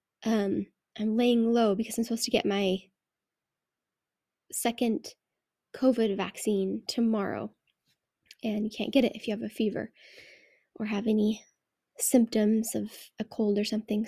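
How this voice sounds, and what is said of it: Nasal, congested voice from a cold. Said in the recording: “I also have a cold ... if I sound a little nasally.”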